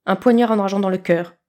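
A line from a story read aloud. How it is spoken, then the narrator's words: Curt reply. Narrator (French): répondit sèchement Walburga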